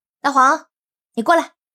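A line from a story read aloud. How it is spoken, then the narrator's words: Calling out. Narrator (Chinese): 云溪对着大黄喊道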